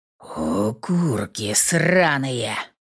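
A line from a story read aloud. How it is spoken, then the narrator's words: Eerie male growl with thuds. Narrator (Russian): рычал незнакомый, но совершенно жуткий мужской голос, перемежая слова глухими ударами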